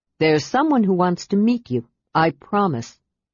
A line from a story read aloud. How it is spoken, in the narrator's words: Brian added gravely